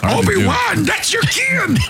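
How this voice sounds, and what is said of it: Yoda voice with Southern accent. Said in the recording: “Yoda's voice with a southern accent.”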